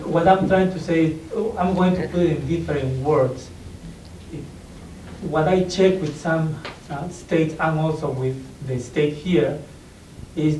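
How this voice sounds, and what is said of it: Non-native English accent. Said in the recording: “Part of it's my hearing, part of it is your accent.”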